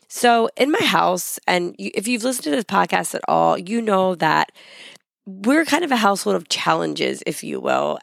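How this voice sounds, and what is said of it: Voice not fully recovered from illness. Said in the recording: “that horrible sounding episode... My voice is still not 100%. I'm still recovering from this horrible sinus infection, cold, all the things”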